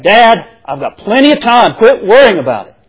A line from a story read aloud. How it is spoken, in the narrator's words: Now irritated, John snaps back